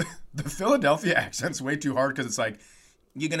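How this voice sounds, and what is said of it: Usual voice. Nothing is said of it.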